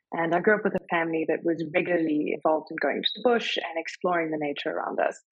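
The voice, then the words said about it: South African accent. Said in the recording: “I'm sure you can hear from my accent. I am South African.”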